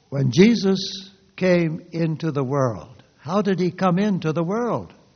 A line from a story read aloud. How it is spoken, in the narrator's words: asked